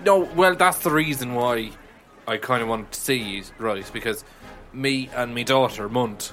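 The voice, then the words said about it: Put-on Irish accent. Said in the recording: “I have an Irish accent”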